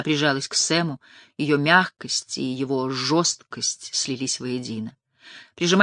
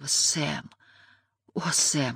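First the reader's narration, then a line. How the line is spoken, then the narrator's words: Whispering. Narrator (Russian): шептала она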